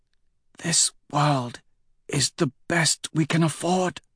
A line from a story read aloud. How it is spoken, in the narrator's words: Octavia whispers